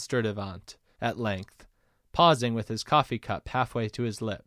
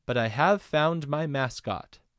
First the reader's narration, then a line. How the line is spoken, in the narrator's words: he replied calmly